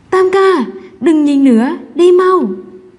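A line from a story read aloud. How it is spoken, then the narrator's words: Loud shout. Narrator (Vietnamese): Triệu Minh Sâm hét lớn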